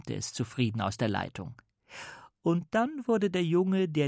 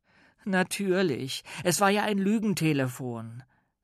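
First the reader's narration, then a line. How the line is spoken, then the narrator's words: Sighing. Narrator (German): seufzte Paul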